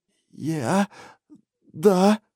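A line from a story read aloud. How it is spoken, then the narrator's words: Forced out. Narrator (Russian): выдавил Рипли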